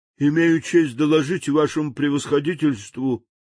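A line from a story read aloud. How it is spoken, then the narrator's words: Glum, dejected. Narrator (Russian): уныло начал он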